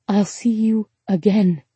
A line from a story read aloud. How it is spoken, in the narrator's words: she whispered